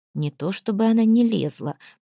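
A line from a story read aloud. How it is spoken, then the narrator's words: Through clenched teeth. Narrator (Russian): процедил он сквозь стиснутые зубы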